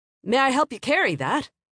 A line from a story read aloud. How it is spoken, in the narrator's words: He called out